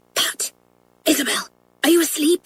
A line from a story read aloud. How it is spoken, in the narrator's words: whispered Janet